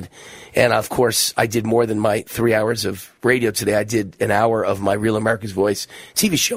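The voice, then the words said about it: Strained, worn-out voice. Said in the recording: “my voice is going. If you don't, trust me, my voice is going ... my voice is always going. It's kind of had it”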